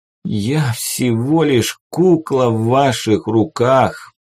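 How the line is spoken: Moaning. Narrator (Russian): простонал он

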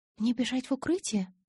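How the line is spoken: Timid question. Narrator (Russian): робко поинтересовалась

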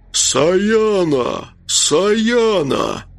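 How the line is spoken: Muffled bass roar. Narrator (Russian): он глухим басом проревел

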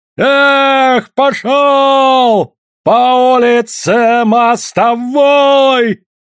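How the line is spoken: Loud yelling. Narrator (Russian): заорал Федор

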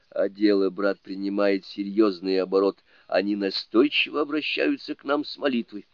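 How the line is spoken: Whisper. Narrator (Russian): Шаосен прошептал

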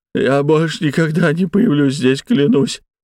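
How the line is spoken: Sobbing. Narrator (Russian): всхлипнул горе-преступник

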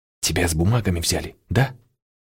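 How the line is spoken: Choked whisper. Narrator (Russian): кадровичка поперхнулась и шепотом спросила

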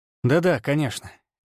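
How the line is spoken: Sarcastic. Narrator (Russian): не скрывая сарказм

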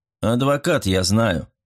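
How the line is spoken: Cold. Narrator (Russian): закончил за нее сэр Руперт, холодно

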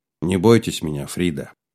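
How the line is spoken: Gentle. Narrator (Russian): мягко сказал Слава

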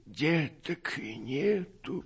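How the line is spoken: Sad. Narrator (Russian): ответила Иона печально

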